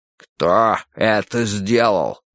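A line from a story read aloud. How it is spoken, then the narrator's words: Menacing question. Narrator (Russian): грозно спросил он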